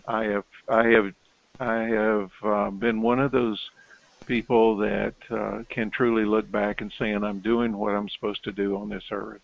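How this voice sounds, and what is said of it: Tennessee Southern American accent. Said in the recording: “As you can tell from my accent, I'm originally from Knoxville, Tennessee”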